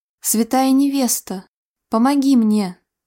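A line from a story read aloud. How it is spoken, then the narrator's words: Deep sigh. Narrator (Russian): глубоко вздохнула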